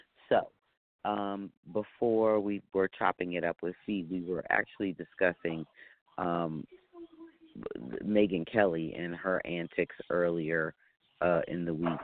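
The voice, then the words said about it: Weak, low-energy voice. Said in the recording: “You sound like you need some energy and you need your voice back... I need my voice back. My voice is being held hostage.”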